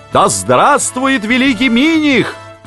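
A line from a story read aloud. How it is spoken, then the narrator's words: Flatterers shouting. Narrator (Russian): кричали подхалимы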